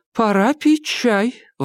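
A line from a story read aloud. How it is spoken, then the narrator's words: Exclaimed. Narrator (Russian): воскликнула Клара Хэй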